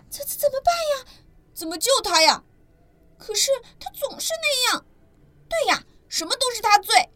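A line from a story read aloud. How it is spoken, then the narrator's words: Shouting. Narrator (Chinese): 你大叫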